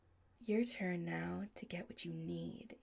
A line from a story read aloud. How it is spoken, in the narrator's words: he says softly